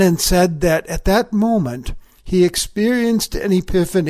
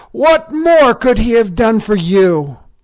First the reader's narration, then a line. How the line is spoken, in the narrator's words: Brennan shouted